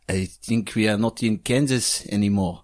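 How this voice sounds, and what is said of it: Attempted French accent sounding Welsh. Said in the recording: “do French for yours then ... That's Welsh. French.”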